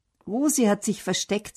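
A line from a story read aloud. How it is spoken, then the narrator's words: Plain. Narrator (German): sagt Bernd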